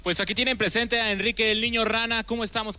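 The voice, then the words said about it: Radio announcer voice. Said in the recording (Spanish): “dinos tu nombre, pero ya en voz de locutor.”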